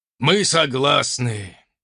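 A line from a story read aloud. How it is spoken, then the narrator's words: Sad sigh. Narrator (Russian): печально вздохнул оппонент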